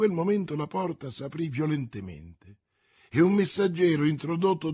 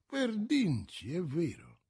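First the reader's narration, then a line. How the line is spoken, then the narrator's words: Murmur. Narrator (Italian): mormorò questi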